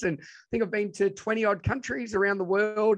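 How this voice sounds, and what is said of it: Strong broad Australian accent. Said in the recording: “my crazy Australian ocker accent”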